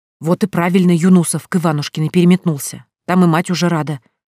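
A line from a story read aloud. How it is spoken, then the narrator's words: Hiss from behind. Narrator (Russian): кто-то прошипел за спиной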